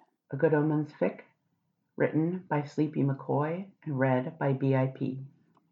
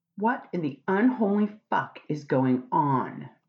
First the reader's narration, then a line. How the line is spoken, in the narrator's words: Crowley shouted angrily